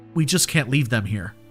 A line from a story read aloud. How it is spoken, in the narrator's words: he said